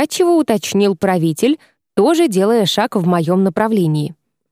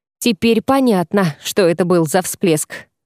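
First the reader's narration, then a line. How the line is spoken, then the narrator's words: Snorting. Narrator (Russian): хмыкнул Шайран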